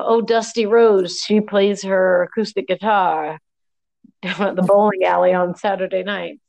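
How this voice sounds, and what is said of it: Playful put-on character voice. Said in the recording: “Stevie Nicks sounding ... my impersonation of someone talking about local legend Dusty Rose”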